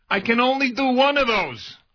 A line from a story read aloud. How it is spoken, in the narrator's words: he yells back